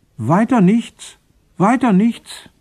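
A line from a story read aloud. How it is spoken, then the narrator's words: Distant call from background. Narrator (German): rief einer aus dem Hintergrund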